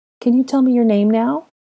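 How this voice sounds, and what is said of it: Soothing, gentle tone. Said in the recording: “soothing tone of voice”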